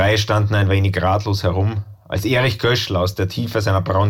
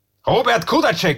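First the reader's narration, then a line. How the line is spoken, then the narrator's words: Calling out. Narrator (German): rief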